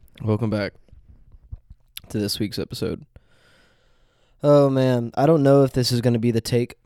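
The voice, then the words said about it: Nasal, congested voice. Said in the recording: “I have a little have bit of allergies ... how nasally my voice is.”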